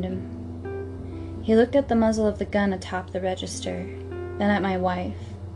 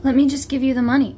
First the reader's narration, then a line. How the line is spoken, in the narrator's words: pleaded the manager